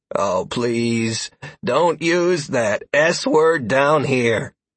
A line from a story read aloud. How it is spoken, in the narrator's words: House Young groaned theatrically